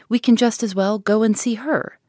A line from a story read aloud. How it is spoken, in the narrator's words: cried Miss Steele